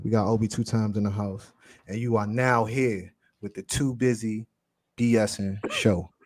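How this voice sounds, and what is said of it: Deep radio announcer voice. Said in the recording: “Your radio voice. ... Your OB at the dark voice”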